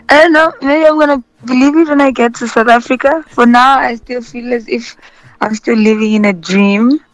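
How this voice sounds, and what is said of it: Hoarse, worn-out voice. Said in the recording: “Do you have a voice? ... My voice is a mess ... that celebration voice”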